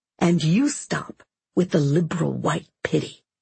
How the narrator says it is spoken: She said quietly

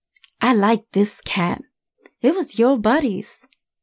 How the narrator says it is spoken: she said

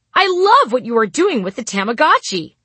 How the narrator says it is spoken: I would say brightly

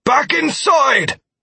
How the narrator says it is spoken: Martell shouted

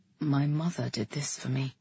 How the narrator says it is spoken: he said, his voice quiet

